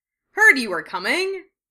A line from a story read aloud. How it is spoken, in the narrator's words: George said cheerfully